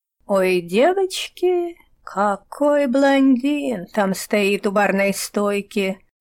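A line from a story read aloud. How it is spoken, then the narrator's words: Dreamy sigh. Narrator (Russian): вздохнула Лиза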